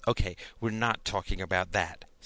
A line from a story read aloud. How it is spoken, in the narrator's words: said Sarah